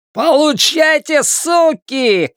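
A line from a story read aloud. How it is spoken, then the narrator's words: Male shout. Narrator (Russian): кричал этот джентльмен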